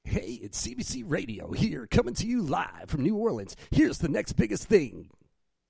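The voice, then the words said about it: Goofy radio DJ voice. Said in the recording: “the DJ voice ... just completely goofy, but. Serious at the same time ... Thought that was somebody else entirely”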